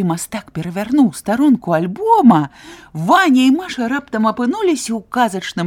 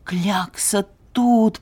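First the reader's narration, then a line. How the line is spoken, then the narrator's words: Whisper. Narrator (Belarusian): прашаптаў Ваня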